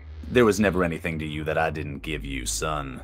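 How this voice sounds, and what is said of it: Deep character voice. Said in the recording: “you hear that deep voice just say”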